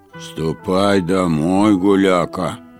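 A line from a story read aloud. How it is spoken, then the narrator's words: Grumbling. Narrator (Russian): ворчал старик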